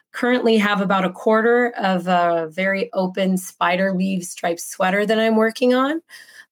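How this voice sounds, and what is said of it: Sick-sounding voice. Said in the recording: “as you can probably hear from my voice, I've been sick for about a week and a half”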